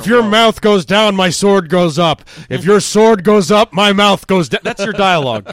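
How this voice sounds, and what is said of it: Imitates another person's voice. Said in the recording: “doing a Sean Connery impression ... because I am doing a Sean Connery impression because he's actually talking like this”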